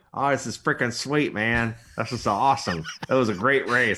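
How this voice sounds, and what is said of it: Imitates another person's voice. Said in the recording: “It doesn't sound like Joey Logano, but I like that your impression.”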